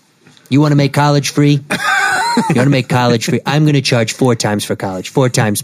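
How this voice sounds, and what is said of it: Imitates another person's voice. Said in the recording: “your Trump impression”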